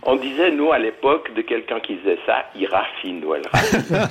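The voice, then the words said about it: Pronounced regional Swiss French accent. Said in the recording (French): “j'ai gardé en français mon accent des Hauts-de-Montreux ... un accent non. assez prononcé”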